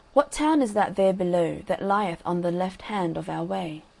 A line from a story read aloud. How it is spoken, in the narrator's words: Then said Mr